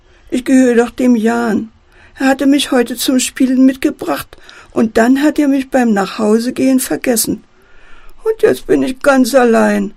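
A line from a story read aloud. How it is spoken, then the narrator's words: Wailing teddy. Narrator (German): jammert der Teddy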